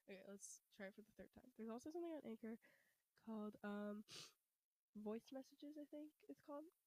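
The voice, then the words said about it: Breathless, strained voice. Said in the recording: “I'm like out of breath... I'm losing my voice”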